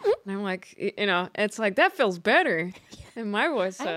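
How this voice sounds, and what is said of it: Usual voice. Nothing is said of it.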